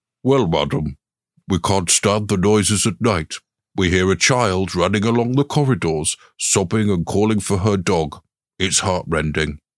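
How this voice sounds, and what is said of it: Butler voice. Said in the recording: “do a butler voice now. ... I'm going to do a butler voice.”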